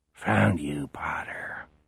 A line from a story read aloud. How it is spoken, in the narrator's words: he murmurs